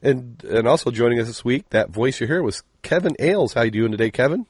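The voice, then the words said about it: Deep, hoarse, sick-sounding voice. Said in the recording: “I can already tell you're downright miserable there ... you can hear ... you end up with that deep radio voice ... I'm going to hack all over this”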